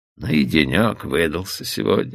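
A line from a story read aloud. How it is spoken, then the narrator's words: Tired. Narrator (Russian): устало произнес Оуэн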